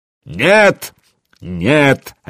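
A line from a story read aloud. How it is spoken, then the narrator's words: Bear cub barking. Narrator (Russian): рявкнул медвежонок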